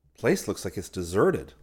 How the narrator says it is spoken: said Rick

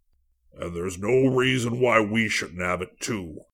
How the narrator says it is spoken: a new voice bellowed

